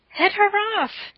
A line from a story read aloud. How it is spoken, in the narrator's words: screamed Anne